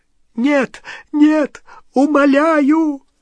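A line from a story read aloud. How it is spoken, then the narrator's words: Choking sobs. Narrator (Russian): захлебывал с рыданиями Ксенофилиус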